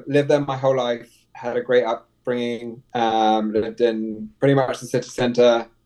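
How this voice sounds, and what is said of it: London English accent. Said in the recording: “I grew up in London, if you can tell by the accent.”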